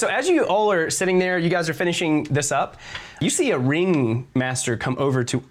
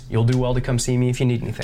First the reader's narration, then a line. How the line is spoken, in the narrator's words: really calmly just says